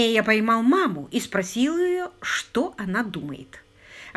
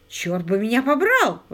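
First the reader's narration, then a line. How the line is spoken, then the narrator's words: Exclamation. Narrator (Russian): воскликнул Паркер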